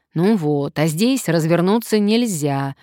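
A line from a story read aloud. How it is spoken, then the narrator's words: Grumbling. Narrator (Russian): заворчал Сарычев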